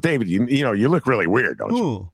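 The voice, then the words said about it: Imitates another person's voice. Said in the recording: “That's not a bad imitation”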